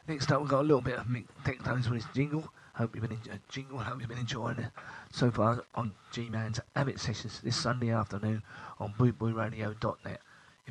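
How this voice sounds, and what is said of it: Breathless, slightly slurred voice. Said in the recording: “out of breath or I'm slightly slurring ... I've had tonsillitis the last couple of days”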